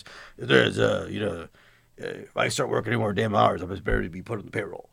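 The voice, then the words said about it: Impression of Scott Davis. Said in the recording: “I'm going to do a Scott Davis voice.”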